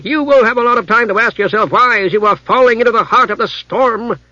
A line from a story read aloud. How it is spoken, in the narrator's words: shouted Darrell